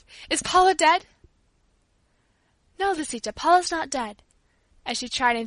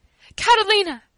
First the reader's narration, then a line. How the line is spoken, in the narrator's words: cried, almost beside myself with fear